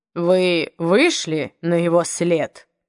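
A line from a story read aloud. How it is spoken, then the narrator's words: Feigned indifference. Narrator (Russian): спросил Большой Па нарочито безразличным тоном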